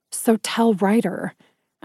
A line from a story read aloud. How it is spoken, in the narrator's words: I said harshly